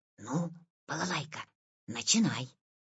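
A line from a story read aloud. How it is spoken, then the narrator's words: Quiet. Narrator (Russian): Витя сказал тихо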